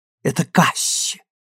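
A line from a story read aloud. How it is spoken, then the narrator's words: Giggling whisper. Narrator (Russian): шепнула она, хихикая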